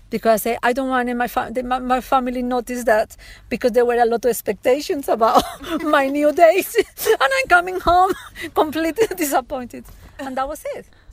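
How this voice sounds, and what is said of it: Speaks with a noticeable accent. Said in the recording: “I love her accent too”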